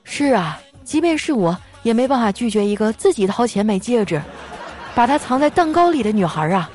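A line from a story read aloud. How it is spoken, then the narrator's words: Sighing. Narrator (Chinese): 这男同学叹了一口气说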